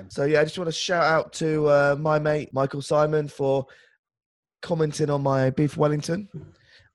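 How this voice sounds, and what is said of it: Voice with a cold. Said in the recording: “I've got a bit of a cold”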